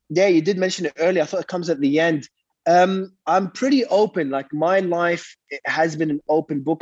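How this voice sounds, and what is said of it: Congested, blocked-nose voice. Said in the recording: “I got my nose blocked. So if my voice sounds a bit weird”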